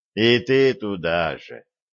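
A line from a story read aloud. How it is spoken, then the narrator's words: Heavy sigh. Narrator (Russian): тяжко вздохнул Виталик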